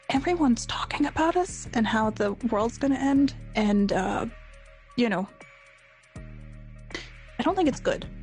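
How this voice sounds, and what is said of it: Lowered, quiet voice. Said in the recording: “I'm going to lower my voice.”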